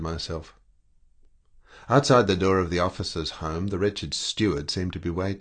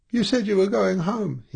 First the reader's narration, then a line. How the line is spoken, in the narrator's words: he squeaked miserably